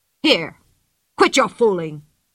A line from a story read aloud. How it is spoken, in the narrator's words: said Thunder Carlson angrily